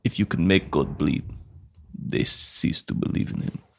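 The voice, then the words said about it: Impression of Whiplash villain. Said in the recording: “my Whiplash impression”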